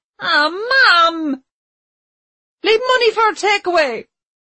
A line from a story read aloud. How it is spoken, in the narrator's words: shouted Chloe